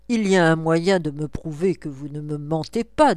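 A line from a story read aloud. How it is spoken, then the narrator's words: Plain. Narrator (French): dit Pouchkine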